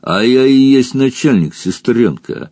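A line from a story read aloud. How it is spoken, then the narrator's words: Laughing. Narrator (Russian): жеребец хохотнул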